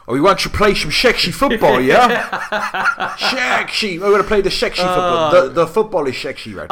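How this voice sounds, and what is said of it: Exaggerated Dutch accent. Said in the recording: “Is his Dutch accent as bad as Steve McLaren's from The Football? ... That is the best Dutch accent I've ever heard.”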